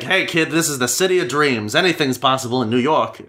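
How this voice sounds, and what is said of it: Put-on New York accent. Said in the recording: “They said in a very New York accent.”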